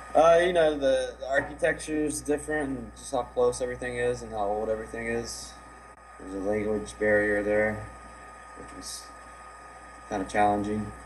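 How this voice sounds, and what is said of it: Slight Southern Virginia twang. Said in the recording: “You kind of sound like you have a little bit of an accent... There's a little bit of that draw still left... got a little twang”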